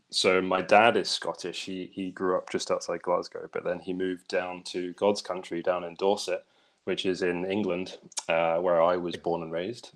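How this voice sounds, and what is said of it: English accent with slight Scottish twang. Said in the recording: “I have an English-ish accent, but I'm pretty bad at picking up accents. So I might have a bit of a Scottish twang”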